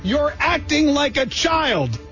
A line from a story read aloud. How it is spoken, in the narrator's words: pepper spray a 9-year-old child while yelling